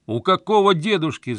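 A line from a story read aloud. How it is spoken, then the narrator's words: Yelled into phone. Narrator (Russian): заорал я в трубку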